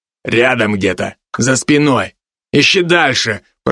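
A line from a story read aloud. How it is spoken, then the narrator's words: Growling. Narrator (Russian): прорычал второй с рыжими подпалинами на бакенбардах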